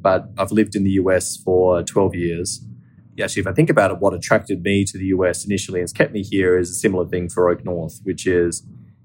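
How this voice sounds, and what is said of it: Australian accent. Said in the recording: “I'm Australian, right? As some of your listeners may be able to tell from my accent”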